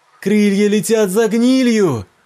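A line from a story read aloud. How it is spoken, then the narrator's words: Shout. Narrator (Russian): крикнула она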